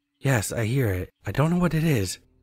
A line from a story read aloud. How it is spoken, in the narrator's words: in a confused, panicked tone